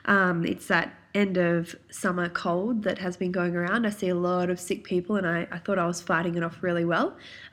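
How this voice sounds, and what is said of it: Croaky, congested nasal voice. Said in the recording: “my voice is a little bit croaky, my nose is a bit blocked ... it's come out in my voice ... the nasaliness of me today”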